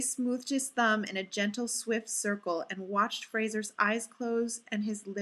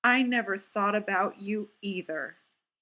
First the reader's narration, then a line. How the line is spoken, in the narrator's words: said